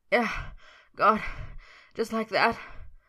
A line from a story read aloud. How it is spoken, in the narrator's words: Merlin panted